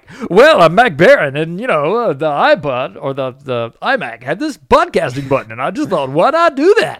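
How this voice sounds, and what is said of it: Fake radio announcer voice. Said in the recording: “I have a total fake radio voice. ... It sounds so stupid.”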